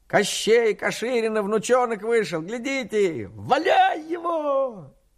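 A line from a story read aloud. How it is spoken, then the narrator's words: Persistent taunting shouts. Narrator (Russian): тем упорней кричали друг другу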